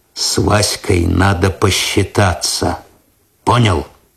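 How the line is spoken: Quiet. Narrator (Russian): тихо сказал

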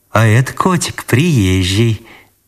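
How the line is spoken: Unusually tender. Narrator (Russian): неузнаваемо ласково сказала Анисья

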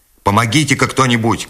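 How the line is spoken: Shout to a crowd. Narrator (Russian): крикнул Скотт, обращаясь к толпе

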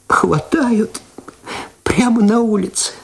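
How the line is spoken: Speaking through tears. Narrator (Russian): сквозь слезы сказала она

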